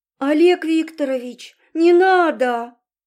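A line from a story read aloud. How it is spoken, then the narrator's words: Sobbing. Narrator (Russian): Девушка разрыдалась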